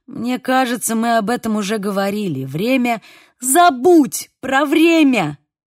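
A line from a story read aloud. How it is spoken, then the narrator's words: Shouting. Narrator (Russian): крикнула я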